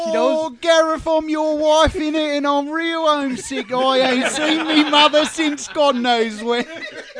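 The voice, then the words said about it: Thick put-on cockney accent. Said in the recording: “It's a thick accent. That is thick. ... She's real cockney.”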